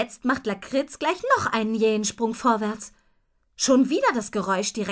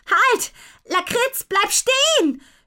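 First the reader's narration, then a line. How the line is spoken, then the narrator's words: Shouting. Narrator (German): schreit Lou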